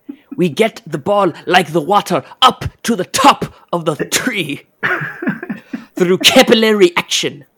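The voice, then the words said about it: Imitates another person's voice. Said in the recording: “a Struber team talk impersonation ... A good Struber riff.”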